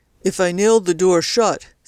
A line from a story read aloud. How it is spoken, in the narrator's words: said CJ sullenly